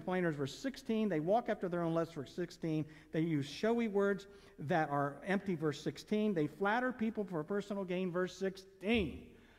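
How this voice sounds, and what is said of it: Reading very fast. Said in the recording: “I know I went fast... I know I went fast... man, you read that fast”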